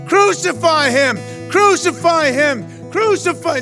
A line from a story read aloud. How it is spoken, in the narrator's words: they shouted all the more